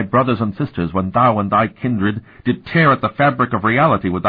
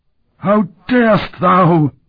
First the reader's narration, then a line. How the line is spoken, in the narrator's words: It gasped